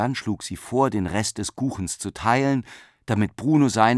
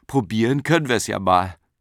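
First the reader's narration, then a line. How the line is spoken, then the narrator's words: Laughing. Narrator (German): Frau Behring lachte und sagte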